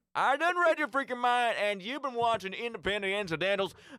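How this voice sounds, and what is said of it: Exaggerated Southern Alabama accent. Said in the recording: “Down to the accent. ... We're in Alabama now.”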